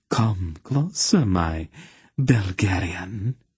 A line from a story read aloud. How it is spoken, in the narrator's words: she ordered softly